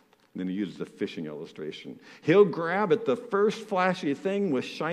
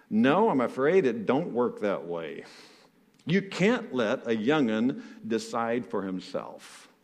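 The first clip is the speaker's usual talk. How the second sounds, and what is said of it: Put-on Southern US accent, not very good. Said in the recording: “I'll try this southern accent thing, probably not very good.”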